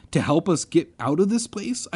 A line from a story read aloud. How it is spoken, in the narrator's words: I cried